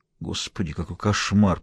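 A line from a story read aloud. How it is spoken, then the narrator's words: Muttering. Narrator (Russian): пробормотал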